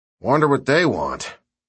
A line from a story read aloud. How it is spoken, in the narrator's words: Sarge said in a sigh